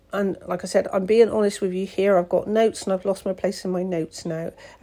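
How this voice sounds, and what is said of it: Voice sounds funny, ill. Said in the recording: “if my voice sounds funny, it's actually because I'm recovering from COVID ... I've just had a bit of a cough ... if my voice seems a bit funny”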